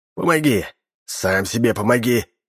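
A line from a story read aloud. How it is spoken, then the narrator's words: Angry inner voice. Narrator (Russian): Зло подумал он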